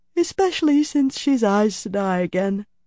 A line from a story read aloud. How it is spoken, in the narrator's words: She sighed, which became a yawn, muffling